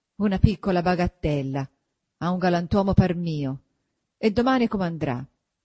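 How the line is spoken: Grumbling. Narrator (Italian): brontolando sempre

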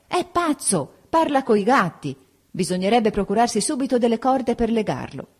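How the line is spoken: Shouted. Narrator (Italian): Anna gridò

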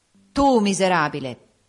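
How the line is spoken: Utterly contemptuous. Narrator (Italian): disse lo spirito in un tuono d'eccessivo disprezzo

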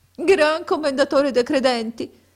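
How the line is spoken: Sobbing, sighing reply. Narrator (Italian): rispose con singhiozzi e reiterati sospiri

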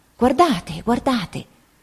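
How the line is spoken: Soft exclamation. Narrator (Italian): esclamando piano

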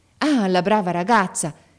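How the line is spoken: Exclaiming. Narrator (Italian): esclamò il padre

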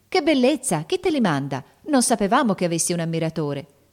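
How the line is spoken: Girls exclaiming in surprise. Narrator (Italian): esclamarono le ragazze con curiosità e sorpresa

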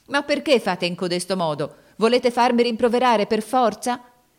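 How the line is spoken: Angry tearful shouting. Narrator (Italian): gridava con voce di rabbia e di pianto

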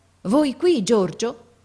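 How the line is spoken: Father, astonished tone. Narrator (Italian): mio padre che dice in tuono di meraviglia

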